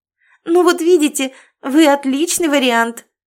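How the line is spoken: Joyful. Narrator (Russian): радостно подхватила Алена Алексеевна

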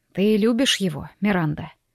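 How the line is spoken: Quiet question. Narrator (Russian): тихо спросил отец

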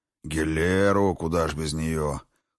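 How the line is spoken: Snorting. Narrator (Russian): хмыкнул Ракот

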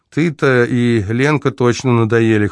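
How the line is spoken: Chuckling. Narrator (Russian): хохотнул красавчик

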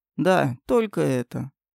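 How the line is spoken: Dry. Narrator (Russian): уже сухо ответил Эльдар

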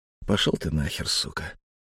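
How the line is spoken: Loud. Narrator (Russian): Очень уж не тихо произнес Алексей

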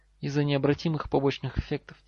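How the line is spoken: Quiet reply. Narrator (Russian): тихо отозвался профессор Квиррел

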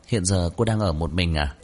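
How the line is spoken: Gentle female question. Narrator (Vietnamese): Nữ bác sĩ nhẹ nhàng hỏi

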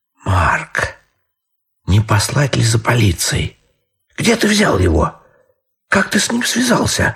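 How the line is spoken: Astonished whisper. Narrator (Russian): шептала она в изумлении

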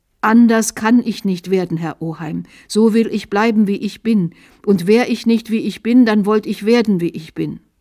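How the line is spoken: Called out. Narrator (German): rief er

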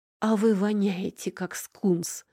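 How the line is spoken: Muffled groan. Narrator (Russian): глухо простонала я

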